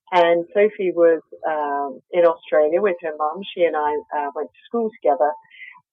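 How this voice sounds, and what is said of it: Australian accent. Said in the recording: “I'm Australian, as you can probably hear from my accent.”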